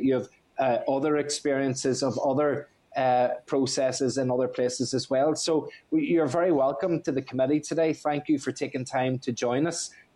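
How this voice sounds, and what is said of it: Northern Irish accent. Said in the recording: “It's good to hear the accent. ... I feel as if I've just landed back home again. So I'm the wee Northern Irish guy”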